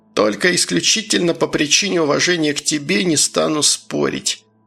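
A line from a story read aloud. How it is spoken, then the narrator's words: Sighing. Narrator (Russian): вздохнул профессор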